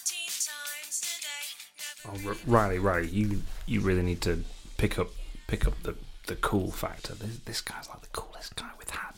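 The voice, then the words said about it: Whispering. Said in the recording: “Why are you whispering so much?”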